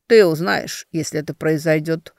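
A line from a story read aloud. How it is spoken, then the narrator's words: Cold. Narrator (Russian): холодно ответил Глеб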